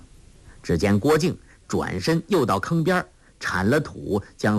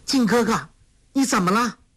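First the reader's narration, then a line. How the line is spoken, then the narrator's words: Frightened cry. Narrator (Chinese): 黄蓉大是惊惧，叫道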